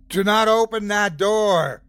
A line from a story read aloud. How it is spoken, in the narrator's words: shouted, voice laden with authority